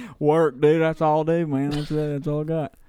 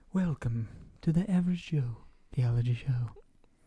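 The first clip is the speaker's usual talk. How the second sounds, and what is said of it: Smooth public-radio announcer voice. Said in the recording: “That's my NPR voice.”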